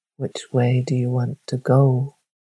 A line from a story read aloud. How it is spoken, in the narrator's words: it spoke softly